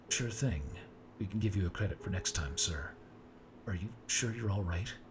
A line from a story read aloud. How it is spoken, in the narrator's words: he asked again